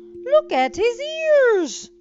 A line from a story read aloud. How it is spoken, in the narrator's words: cried one boy, teasing Dumbo